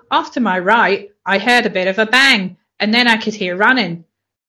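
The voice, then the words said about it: Good put-on Australian accent. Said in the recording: “that was a really good Australian accent, then a weird English accent, and then your own voice.”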